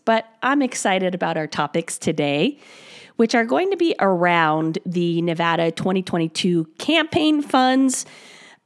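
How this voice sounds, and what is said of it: Raspy voice. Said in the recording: “I apologize for my raspy voice”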